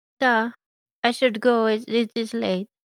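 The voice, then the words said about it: Put-on Russian accent. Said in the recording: “I really like your accent ... I'm from Russia”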